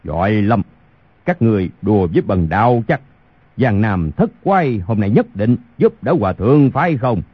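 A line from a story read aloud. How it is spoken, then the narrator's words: Angry. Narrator (Vietnamese): Khu Sử Cơ tức giận nói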